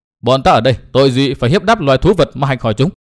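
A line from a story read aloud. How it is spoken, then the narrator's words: Angry question. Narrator (Vietnamese): Nguyên Bình giận dữ hỏi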